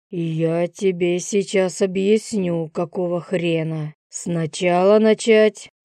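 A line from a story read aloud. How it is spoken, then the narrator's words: Growled. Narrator (Russian): Прорычал Юрий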